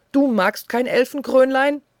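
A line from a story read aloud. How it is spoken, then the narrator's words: Angry scream. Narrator (German): schrie es wütend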